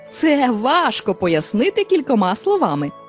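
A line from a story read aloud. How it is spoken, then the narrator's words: Laughing reply. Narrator (Ukrainian): засміявшись, відповів мавп'ячий король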